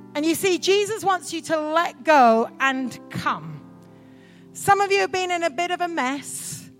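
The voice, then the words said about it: Strange English accent. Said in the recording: “this crazy girl from Oxford with a strange accent”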